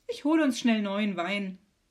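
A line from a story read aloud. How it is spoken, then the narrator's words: Cheerful. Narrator (German): sagt Maria fröhlich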